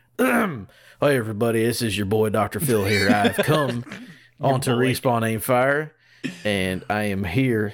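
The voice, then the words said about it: Mild Texan accent impression. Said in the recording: “He's sort of Texan. He's not super, his accent isn't crazy.”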